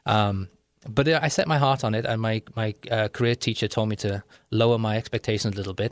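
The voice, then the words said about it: Mixed, partly Liverpool accent. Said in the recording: “My accent is a Liverpool accent, or it's a mixed accent now. But in those days, I used to talk more like a beetle than I talk today.”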